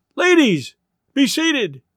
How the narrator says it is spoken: Thirkel might have cried, or been tempted to cry

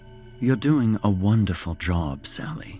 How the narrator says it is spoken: he said calmly

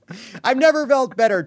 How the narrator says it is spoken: Trump shouted

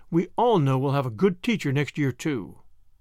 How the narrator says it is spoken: she added hastily

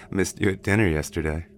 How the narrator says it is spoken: he said with a chuckle

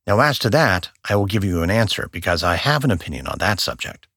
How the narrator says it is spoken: Garfield quickly answered the reporter

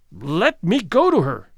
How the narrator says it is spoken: cried Lorison, again struggling

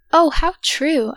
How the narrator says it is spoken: I exclaimed with a rush of overflowing feeling

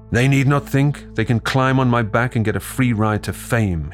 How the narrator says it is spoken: he yells

